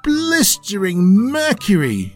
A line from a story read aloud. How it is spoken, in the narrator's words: he exclaimed